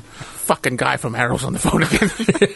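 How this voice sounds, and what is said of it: 1930s gangster-style studio executive voice. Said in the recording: “do a fucking impression of a studio exec, he sounds like he's from the fucking 30s ... It's like Al Capone or something.”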